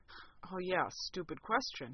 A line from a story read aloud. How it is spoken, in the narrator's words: he muttered